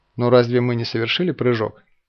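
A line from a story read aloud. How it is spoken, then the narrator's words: Plain. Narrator (Russian): спросил он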